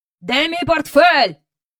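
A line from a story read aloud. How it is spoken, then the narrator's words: Shout. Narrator (Ukrainian): закричав містер Бенкс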